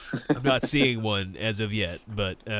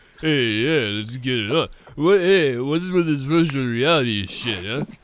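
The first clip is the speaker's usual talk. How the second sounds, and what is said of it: Sylvester Stallone impression. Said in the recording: “Stallone, huh? ... Maybe she does the voice.”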